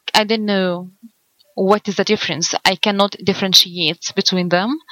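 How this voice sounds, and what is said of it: Heavy non-native English accent. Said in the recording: “I know my accent is terrible”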